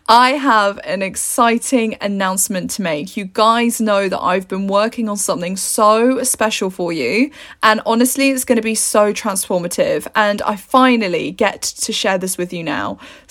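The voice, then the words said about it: Excited, upbeat voice. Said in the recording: “hear the excitement in my voice?”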